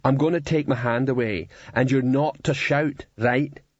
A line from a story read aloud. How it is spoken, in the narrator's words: said Cliff, in a reasonable tone of voice